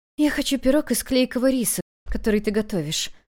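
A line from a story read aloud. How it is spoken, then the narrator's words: Weak, faint request. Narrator (Russian): императрица попросила слабым голосом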